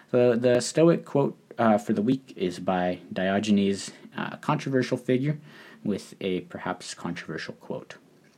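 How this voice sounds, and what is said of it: Slightly rough, sick-sounding voice. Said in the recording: “I ended up getting sick. You can still kind of hear it in my voice ... my voice is still a little scrappy”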